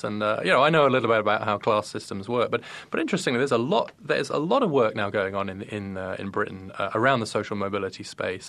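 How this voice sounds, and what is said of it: British accent. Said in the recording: “someone with your accent ... a class-bound Brit”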